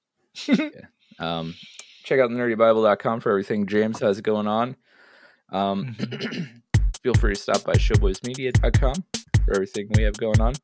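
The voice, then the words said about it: Strained, fading hoarse voice. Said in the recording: “I'm really losing my voice, ... You sure are. ... hopefully with a voice”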